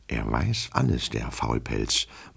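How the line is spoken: Murmur. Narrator (German): murmelte Herr Goljetkin

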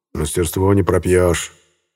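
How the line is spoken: Vague grunt. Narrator (Russian): неопределенно хмыкнул

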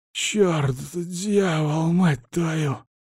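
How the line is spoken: Hoarse swearing. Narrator (Russian): хрипло матерится тот

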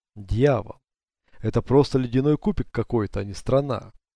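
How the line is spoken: Exasperated exclamation. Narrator (Russian): в сердцах воскликнул Брайс

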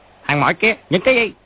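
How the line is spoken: Soldiers shouting. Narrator (Vietnamese): Hai tên lính quát

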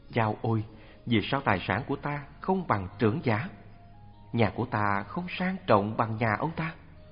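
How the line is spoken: Muttered. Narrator (Vietnamese): Thường nói lẩm bẩm

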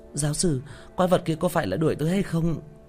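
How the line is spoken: Frightened question. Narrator (Vietnamese): Thanh niên đeo mắt kính sợ hãi hỏi

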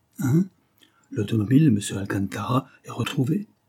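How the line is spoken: Exclaiming. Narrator (French): s'écria-t-il

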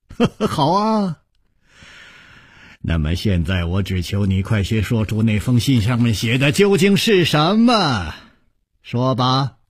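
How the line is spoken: Smiling. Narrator (Chinese): 他带着笑容说

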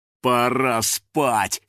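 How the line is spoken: Manic chuckle. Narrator (Russian): хохотнул охотник, безумно сверкая глазами

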